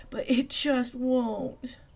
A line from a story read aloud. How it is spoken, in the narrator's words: Velma moaned